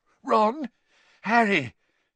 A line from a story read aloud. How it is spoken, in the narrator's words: His voice sounded shaky